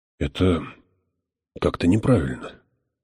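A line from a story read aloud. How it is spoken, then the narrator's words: Mumbled. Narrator (Russian): промямлил отец Хойт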